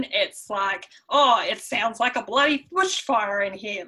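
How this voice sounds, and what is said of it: Exaggerated broad Australian accent. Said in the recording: “if I can portray his accent ... so Australian ... that's a really bad impression”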